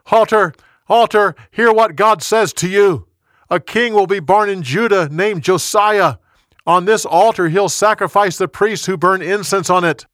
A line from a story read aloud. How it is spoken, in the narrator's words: The young prophet yelled